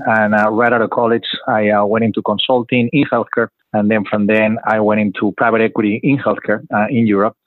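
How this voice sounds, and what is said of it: Spanish accent. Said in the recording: “I'm originally from Madrid, Spain, as you can hear in the funny accent.”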